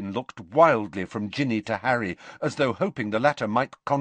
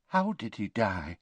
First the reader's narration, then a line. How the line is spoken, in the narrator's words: whispered Tonks